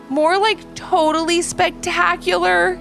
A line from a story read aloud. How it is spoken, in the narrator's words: exclaimed Ivy